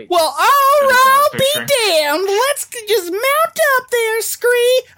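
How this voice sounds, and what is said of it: Southern twang waitress character voice. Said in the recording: “sound like an old South Pancake House waitress ... Deb needs a little bit more twang”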